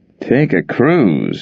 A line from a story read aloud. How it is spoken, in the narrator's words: Yank mumbled